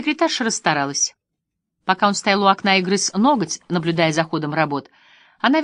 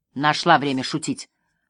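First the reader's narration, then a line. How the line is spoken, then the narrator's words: Snapping retort. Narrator (Russian): огрызнулся Джерри Вулд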